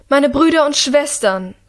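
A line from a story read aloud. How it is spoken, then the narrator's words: Regent calling out. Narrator (German): ruft die Regentin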